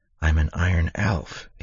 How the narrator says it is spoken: whispered, not really believing it

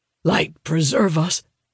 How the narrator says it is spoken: murmurs, his stoic demeanor cracking

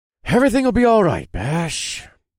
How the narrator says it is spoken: I said to myself in my most reassuring voice

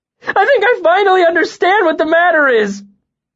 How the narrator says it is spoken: Bast laughed then, but it was loud and strained and choked off into something that sounded like a sob

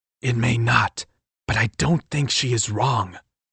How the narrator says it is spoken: I whispered in reply

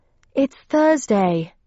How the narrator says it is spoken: I panted, running

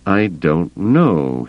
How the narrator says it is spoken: he said, slowly

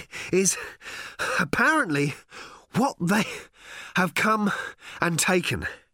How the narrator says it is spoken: he was panting

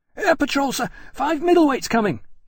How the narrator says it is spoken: panted

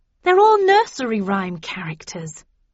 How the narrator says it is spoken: exclaimed

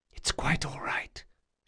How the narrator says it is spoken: she whispered

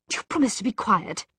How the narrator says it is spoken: he hissed into his friend's ear

